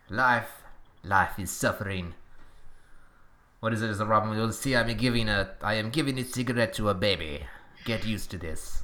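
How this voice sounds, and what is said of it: Exaggerated put-on French accent. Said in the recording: “That was the worst French accent ever. ... I think it was thoroughly respectable. ... It's not so bad a French accent that it's Québécois.”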